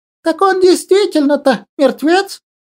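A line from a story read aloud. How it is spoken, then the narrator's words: Frightened wail, woman. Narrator (Russian): Испуганно заголосила из толпы какая-то тетка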